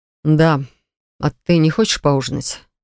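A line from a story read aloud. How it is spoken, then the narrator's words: Soft question. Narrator (Russian): Мягко так спрашивает Марк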